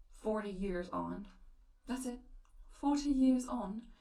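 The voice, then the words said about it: Bad put-on English accent. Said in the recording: “the most English thing I've ever heard ... That's a terrible accent”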